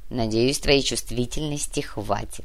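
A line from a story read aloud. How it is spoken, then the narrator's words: Muttering. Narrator (Russian): пробормотал Нур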